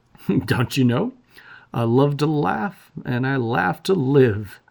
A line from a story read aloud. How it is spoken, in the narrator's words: laughed